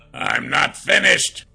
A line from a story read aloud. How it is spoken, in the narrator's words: Brenwar growled